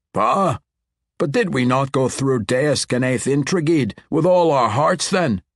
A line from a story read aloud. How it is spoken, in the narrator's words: Orithio cried